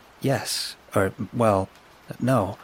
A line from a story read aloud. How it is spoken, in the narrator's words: stammered